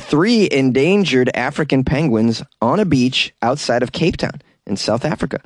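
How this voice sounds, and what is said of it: Usual voice. Nothing is said of it.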